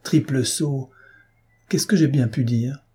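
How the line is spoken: Exclaimed. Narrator (French): s'écria-t-il

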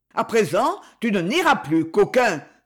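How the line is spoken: Many voices exclaiming. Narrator (French): s'écria-t-on de toutes parts

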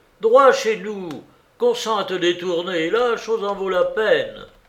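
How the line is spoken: Exclaiming. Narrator (French): s'écria-t-il

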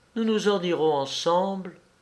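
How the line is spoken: Murmured. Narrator (French): murmura-t-elle

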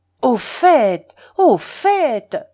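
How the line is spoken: Nearly beside himself. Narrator (French): s'écria monsieur Pirard, presque hors de lui

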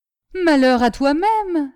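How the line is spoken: Furious exclamation. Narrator (French): s'écria le calife, tout hors de lui

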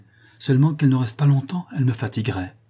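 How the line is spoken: Calm voice. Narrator (French): dit-il d'une voix tranquille

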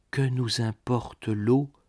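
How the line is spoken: Young woman whispering. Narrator (French): chuchota la jeune femme

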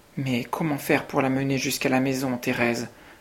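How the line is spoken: Plain question. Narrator (French): demanda Madeleine

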